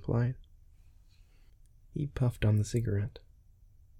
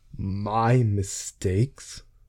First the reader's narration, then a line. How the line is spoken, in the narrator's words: roared